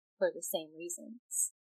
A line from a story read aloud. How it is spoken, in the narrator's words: she said softly